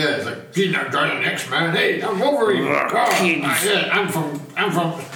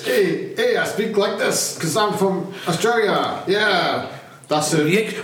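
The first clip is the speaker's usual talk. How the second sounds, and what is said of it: Poor put-on Australian accent. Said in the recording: “Don't do accents. ... That's not Australia.”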